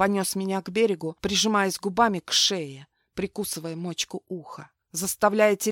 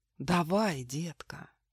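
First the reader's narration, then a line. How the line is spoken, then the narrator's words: Hypnotic whispered command. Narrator (Russian): гипнотическим шепотом приказал он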